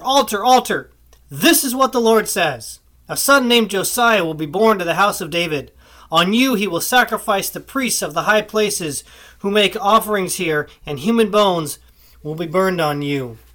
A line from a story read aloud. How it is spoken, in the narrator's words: he cried out against the altar